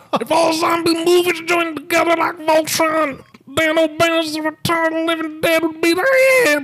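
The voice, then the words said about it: Bill Cosby impression. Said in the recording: “I'm also going to do a Bill Cosby impression.”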